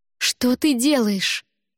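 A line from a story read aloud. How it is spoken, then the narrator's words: Horrified exclamation. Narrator (Russian): в ужасе воскликнула я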